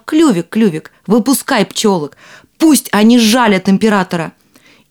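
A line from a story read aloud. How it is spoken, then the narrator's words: Rooster shouting. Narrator (Russian): петушок закричал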